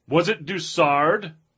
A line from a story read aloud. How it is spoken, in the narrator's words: shouted